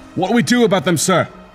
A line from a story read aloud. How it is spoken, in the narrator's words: one of his soldiers yelled